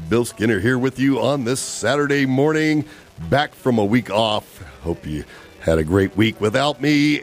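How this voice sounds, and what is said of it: Rough, slightly hoarse voice. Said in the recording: “My voice is in a little bit of a rough shape today”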